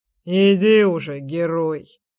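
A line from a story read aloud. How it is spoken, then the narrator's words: Smirking beast. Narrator (Russian): хмыкнул зверь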